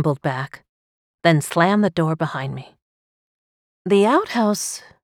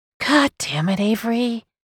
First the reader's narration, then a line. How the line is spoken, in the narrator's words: she breathed